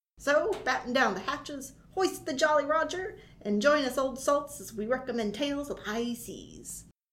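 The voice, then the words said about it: Put-on pirate accent. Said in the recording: “we be sounding a bit different this episode ... Talk Like a Pirate Day is coming up ... hosting things with a funny accent.”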